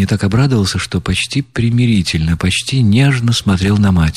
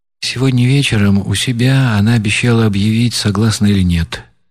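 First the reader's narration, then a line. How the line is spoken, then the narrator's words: Plain. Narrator (Russian): ответил Ганни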